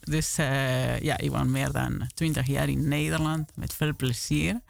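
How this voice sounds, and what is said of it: Argentine accent speaking Dutch. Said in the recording (Dutch): “Jullie horen een accent. Ik kom oorspronkelijk uit het land van de tango, van Messi.”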